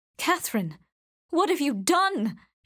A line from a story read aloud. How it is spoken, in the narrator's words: gasped